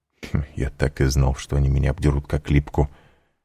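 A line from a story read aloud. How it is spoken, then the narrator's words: Muttering. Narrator (Russian): пробормотал Данглар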